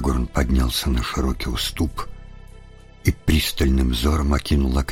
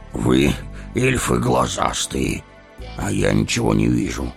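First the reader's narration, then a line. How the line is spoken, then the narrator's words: Grumbling, out of breath. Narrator (Russian): проворчал Гимли, тяжело дыша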